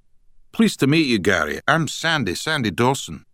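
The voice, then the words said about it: Strong Scottish accent. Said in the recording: “in a strong Scottish accent”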